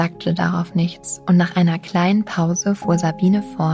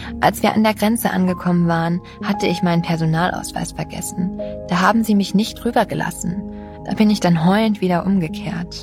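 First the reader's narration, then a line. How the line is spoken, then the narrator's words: Forced laugh. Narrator (German): sie lachte gezwungen auf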